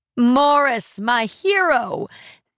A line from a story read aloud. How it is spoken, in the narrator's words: she squeals